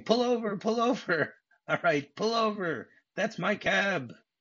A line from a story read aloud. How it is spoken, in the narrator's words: he starts screaming